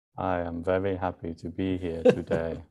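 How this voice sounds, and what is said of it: Flat monotone delivery. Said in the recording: “Today is Monotone Day. ... You sound thrilled”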